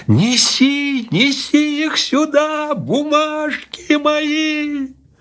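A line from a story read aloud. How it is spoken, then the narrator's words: Shouting even louder. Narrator (Russian): закричал еще громче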